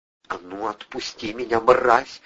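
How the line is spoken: Hissing woman. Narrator (Russian): зашипела женщина

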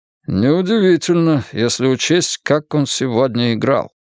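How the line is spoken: Grumbling mutter. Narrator (Russian): пробурчал Банкрофт

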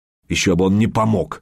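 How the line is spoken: Scornful snort. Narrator (Russian): фыркнул Артем

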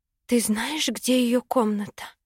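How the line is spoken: Whispered question. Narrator (Russian): шепотом спросила у Ростина

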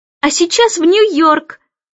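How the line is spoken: Louder yelling. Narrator (Russian): Близнецы завопили еще громче

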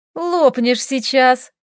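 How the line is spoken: Giggling. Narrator (Russian): хихикнула она

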